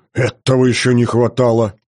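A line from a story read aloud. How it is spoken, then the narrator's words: Irritated conflicted snort. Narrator (Russian): раздраженно фыркнул отец, внутри которого боролись противоречивые чувства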